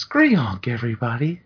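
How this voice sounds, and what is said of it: Impression of a co-host. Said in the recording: “That was a good impression”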